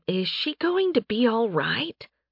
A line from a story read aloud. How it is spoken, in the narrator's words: Faye whispered into Nathan's ear